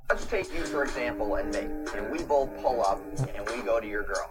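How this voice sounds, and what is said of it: Robotic, computer-like flat voice. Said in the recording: “talks like an IBM computer”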